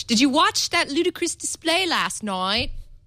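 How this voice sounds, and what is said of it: Bad attempt at Cockney accent. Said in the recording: “it's supposed to be Cockney... Oh God, that was the worst accent.”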